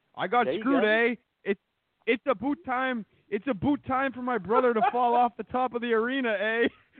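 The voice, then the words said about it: Mock Canadian accent impression. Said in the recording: “Bret Hart impersonation ... He's Canadian, ain't he? He's Canadian. ... That's a Bret Hart impression.”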